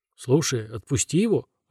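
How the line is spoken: Confused suggestion. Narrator (Russian): растерянно предлагает Нукикуби

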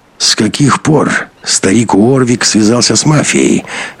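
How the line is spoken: Hoarse question. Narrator (Russian): охрипшим голосом спросил Беленин

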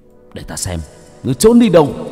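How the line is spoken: Harsh, gritted voice. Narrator (Vietnamese): Hải Xoa gằn giọng

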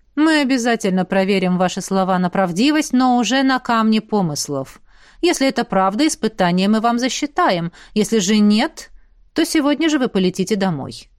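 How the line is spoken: Dry. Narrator (Russian): сухо сказал князь

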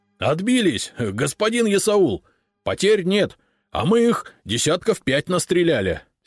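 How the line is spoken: Excited joyful near-shout. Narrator (Russian): Возбужденный Павел радостно чуть ли не кричал

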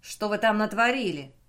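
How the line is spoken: Menacing question. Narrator (Russian): грозно спросил

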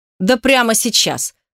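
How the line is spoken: Snorting. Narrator (Russian): фыркнул он

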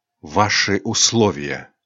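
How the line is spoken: Whispered. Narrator (Russian): Айрин дрогнула, с ненавистью посмотрела на него и прошептала

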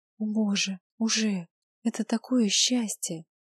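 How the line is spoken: Stunned whisper. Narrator (Russian): Прошептала она ошарашенно

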